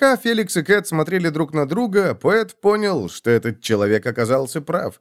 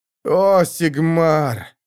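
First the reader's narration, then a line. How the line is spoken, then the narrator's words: Moaned. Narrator (Russian): простонал стрелок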